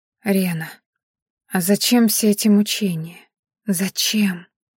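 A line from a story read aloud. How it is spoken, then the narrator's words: Quiet question. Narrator (Russian): тихо спросила Маяри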